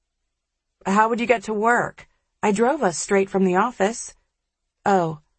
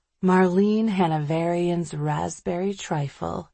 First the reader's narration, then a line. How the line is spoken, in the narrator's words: she says dreamily